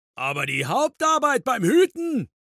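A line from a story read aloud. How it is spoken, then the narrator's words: Thundering. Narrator (German): donnerte Grobian weiter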